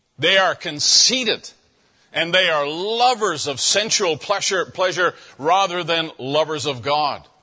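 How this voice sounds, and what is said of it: Loud, emphatic preaching. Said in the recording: “saying it loudly”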